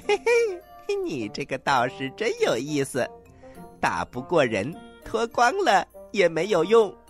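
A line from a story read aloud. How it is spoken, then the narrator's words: Loud laughter. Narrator (Chinese): 孙悟空哈哈大笑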